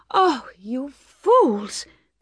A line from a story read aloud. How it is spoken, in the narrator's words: cried Bathsheba